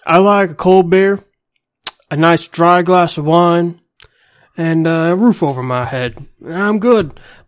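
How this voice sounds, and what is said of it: Bad put-on Texas Southern accent. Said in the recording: “You sound Southern, by the way. Like, really Southern. ... a bad Texas accent.”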